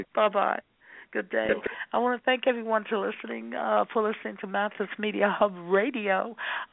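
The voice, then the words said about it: Hoarse voice. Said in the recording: “Sorry, I have a hoarse voice”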